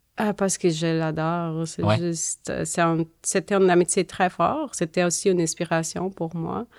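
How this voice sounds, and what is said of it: Strong accent. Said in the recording (French): “Moi, j'ai un accent fort.”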